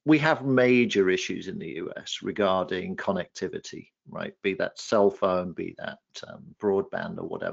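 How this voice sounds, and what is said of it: English accent. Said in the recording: “I'm talking from the US, despite the English accent”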